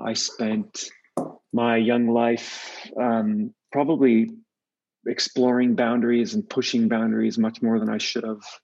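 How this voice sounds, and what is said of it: Californian American accent. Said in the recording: “I'm from California, you can hear the accent.”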